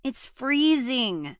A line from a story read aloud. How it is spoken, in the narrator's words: Hallie had groaned